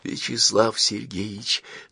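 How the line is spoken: Whispered. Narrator (Russian): зашептал профессор

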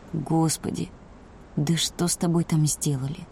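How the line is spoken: Quiet. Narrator (Russian): произнес он тихо

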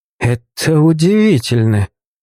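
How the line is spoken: Breathless exhale. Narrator (Russian): Осторожно ощупывая пространство вокруг, выдохнул призванный

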